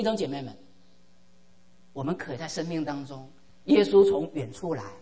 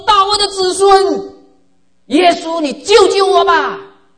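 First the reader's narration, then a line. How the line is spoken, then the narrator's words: Loud pleading cry. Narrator (Chinese): 他大声的这个呼求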